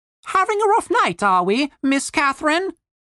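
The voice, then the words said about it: Character voice with British accent. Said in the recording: “said an unexpected British voice.”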